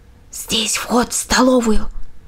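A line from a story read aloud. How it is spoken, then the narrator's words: Whisper. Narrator (Russian): прошептал Дакс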